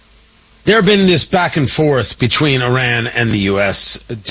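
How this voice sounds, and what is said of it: Usual voice. Nothing is said of it.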